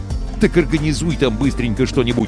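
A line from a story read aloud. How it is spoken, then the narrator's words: Plain. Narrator (Russian): ответил капитан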